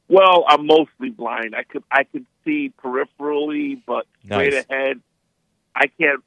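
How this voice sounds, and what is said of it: New York accent. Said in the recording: “in New York City ... Recognize my accent. Forget about it.”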